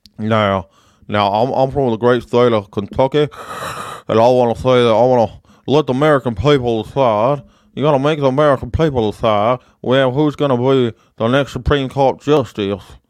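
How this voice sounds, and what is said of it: Slack-jawed Kentucky politician voice. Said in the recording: “Mitch McConnell from the Great State of Kentucky ... that's Mitch McConnell from Kentucky ... He got a slack jaw, can't open his mouth long”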